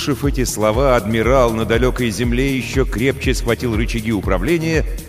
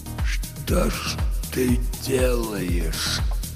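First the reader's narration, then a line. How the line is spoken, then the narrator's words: Whispered. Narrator (Russian): прошептал он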